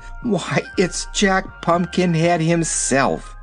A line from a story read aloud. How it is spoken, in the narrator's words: Dorothy exclaimed